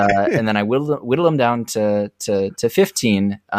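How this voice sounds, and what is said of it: Usual voice. Nothing is said of it.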